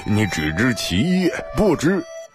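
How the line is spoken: Laughing. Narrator (Chinese): 李萌笑道

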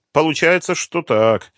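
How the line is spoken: Gloomy agreement. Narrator (Russian): мрачно согласился Лукин

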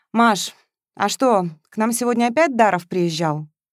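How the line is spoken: Sighing question. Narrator (Russian): Матвеев вздохнув, спросил

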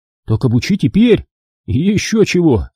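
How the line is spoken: Exclaimed. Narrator (Russian): воскликнул Керби

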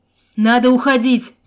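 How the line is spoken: Shouted. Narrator (Russian): крикнул я оружейнику

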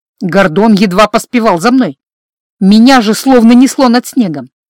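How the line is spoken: Plain. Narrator (Russian): ответила

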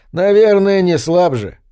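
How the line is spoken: Chuckling. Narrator (Russian): Дядюшка Уильям хохотнул

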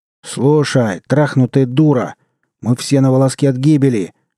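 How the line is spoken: Roaring. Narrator (Russian): взревел мужлан

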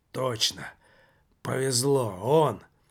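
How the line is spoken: Very faint hoarse whisper. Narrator (Russian): прошептал совсем уже тихо, хриплым голосом Жак

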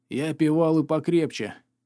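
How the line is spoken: Breathed out. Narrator (Russian): выдохнул он

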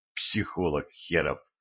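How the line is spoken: Hostile whisper. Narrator (Russian): неприязненно шепотнул я

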